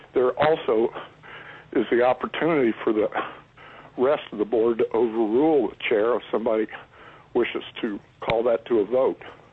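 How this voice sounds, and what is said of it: Sick voice from a cold, almost tearful. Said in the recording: “you sound different today... I got a cold... I thought you were so passionate you were on the verge of tears”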